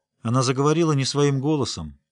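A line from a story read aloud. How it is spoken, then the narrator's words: Calm. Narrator (Russian): спокойно сказала Трис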